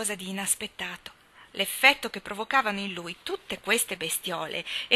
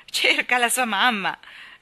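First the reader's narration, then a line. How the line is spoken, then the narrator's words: Laughing reply. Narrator (Italian): rispose Deacon ridendo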